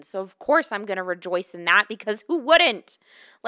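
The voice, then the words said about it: Shouting. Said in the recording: “I'm shouting.”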